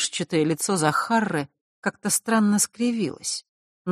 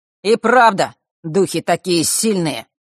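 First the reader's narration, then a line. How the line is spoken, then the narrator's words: Sudden loud ringing voice. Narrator (Russian): неожиданно громко и сильно прозвенел голос Фэша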